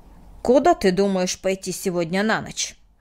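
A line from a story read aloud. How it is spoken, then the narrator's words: Sharp question. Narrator (Russian): резко спросил Мартин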